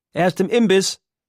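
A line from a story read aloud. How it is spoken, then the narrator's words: Sister calling from inside. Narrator (German): ruft eine seiner Schwestern aus dem Inneren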